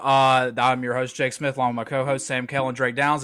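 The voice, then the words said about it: Very fast speech. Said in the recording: “If you're wondering why I'm talking so fast, it's because I have to leave at 6:30.”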